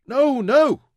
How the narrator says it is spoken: Mansur cried

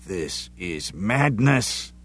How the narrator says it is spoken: Sean growled

